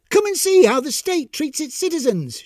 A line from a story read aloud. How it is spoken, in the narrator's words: called out to anyone who would listen